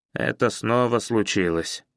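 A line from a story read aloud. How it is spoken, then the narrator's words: Gloomy announcement. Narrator (Russian): мрачно объявил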